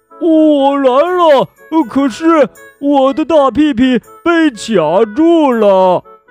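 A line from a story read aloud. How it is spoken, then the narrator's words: Loud shouted reply. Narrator (Chinese): 大声回喊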